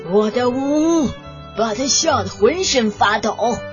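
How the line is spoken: Roaring bear. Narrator (Chinese): 熊咆哮道

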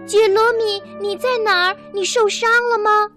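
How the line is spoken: Calling out. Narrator (Chinese): 他又叫了起来

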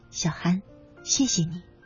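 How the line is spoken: Soft. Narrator (Chinese): 邱健 轻声说

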